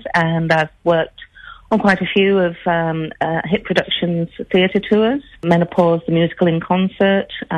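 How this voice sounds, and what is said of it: Northern English Yorkshire accent. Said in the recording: “I'm trying to pick that accent. You must be from the north of England, are you? ... You are a Yorkshire girl.”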